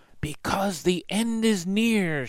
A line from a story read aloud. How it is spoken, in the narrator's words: whispered hoarsely